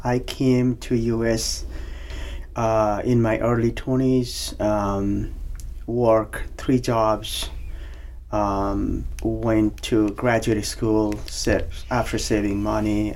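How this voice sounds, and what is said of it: Nepali accent. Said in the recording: “as you can see with my or hear from my accent, I'm originally from Nepal”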